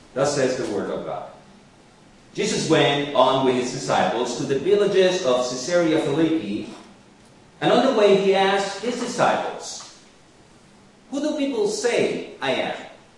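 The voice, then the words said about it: Speaks English with an accent. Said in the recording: “You will hear this lesson with an accent ... it's your accent”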